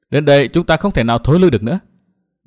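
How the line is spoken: Smiling. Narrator (Vietnamese): Nguyên Bình mỉm cười

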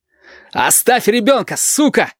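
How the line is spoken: Strained shout. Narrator (Russian): надсадно крикнул Валентин

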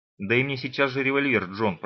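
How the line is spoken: Muttered. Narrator (Russian): пробормотал

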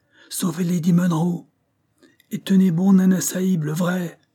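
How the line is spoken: Exclaiming. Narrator (French): s'écria Goumi

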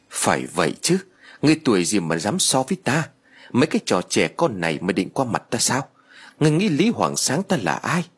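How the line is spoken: Audible muttering, old man. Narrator (Vietnamese): Ông ta lẩm bẩm vài câu không to không nhỏ, đủ cho mọi người ở đó nghe được

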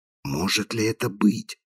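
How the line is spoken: Whisper. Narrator (Russian): шепнул Холгрейв

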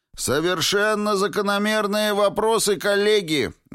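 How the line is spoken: Loud bark over voices. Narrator (Russian): гаркнул Двейн, перекрывая голоса магов

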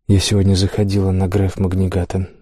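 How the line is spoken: Quiet, discreet. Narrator (Russian): начала она тихо, чтобы проходившие мимо люди не слышали

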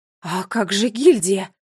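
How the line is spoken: Exclaimed. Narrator (Russian): воскликнула королева

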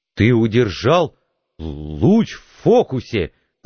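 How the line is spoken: Stammering. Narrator (Russian): заикаясь, сказал Пауэлл

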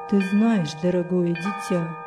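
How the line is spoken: Muttering. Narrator (Russian): пробормотал он

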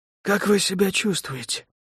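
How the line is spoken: Quiet inquiry. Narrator (Russian): тихо поинтересовался Лука

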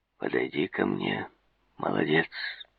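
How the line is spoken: Deep, husky voice. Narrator (Russian): Словно бы издалека услышал он глубокий, хрипловатый голос

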